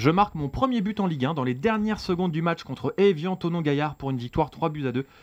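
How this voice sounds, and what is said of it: Usual voice. Nothing is said of it.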